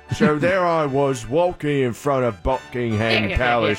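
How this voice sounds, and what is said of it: Put-on British accent. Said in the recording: “you do a British accent without mercy”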